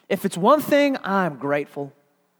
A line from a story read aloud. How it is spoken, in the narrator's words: Turpin, she shouts out and exclaims